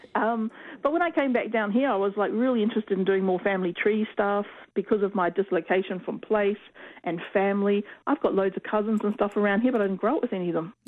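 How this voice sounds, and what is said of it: Slight Maori-influenced accent. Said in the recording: “My husband is actually Maori. So that might add to the accent ... I'm picking up a little bit of your accent now.”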